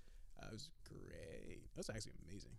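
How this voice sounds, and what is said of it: Sarcastic, drawn-out delivery. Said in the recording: “Drew out great. And sounded really sarcastic.”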